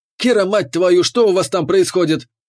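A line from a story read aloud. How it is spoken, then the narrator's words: Yelling over comm. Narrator (Russian): Заорал капитан в ком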